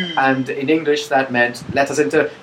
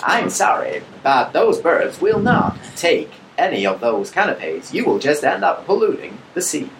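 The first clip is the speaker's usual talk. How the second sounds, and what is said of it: Star Trek computer voice, Majel Barrett. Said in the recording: “give it the sort of Star Trek computer translate ... Majel Barrett's ... translation”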